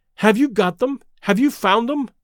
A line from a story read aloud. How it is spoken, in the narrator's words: she panted